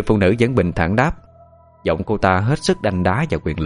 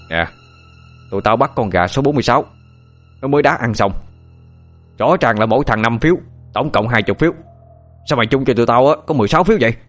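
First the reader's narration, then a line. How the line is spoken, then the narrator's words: Loud voice, burly young man. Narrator (Vietnamese): Người thanh niên to con nhất lớn tiếng nói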